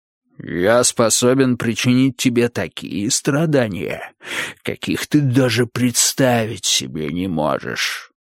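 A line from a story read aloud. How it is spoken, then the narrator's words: Growling. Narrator (Russian): рыкнул Могил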